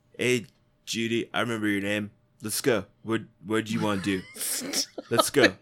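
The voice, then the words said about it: Flat bro-y voice. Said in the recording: “They both had this kind of like flat bro-y”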